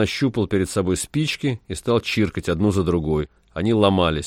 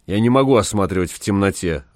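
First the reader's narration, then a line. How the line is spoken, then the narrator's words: Irritated. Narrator (Russian): раздраженно сказал доктор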